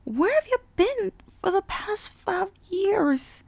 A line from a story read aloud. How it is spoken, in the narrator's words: Applebloom cried